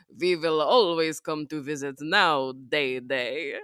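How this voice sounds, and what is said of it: Thick Hungarian vampire accent. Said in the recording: “the very thick like Bela Lugosi Hungarian accent”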